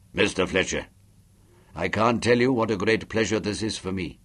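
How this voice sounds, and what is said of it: Deep soft British upper-class voice. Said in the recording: “His voice was deep and soft and friendly. The accent was British upper class”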